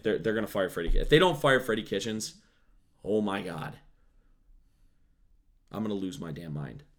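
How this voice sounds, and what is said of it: Hoarse, strained voice. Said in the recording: “I'm also, again, losing my voice.”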